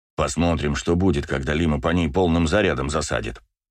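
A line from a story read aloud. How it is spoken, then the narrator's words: Grumbling. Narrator (Russian): ворчал Браво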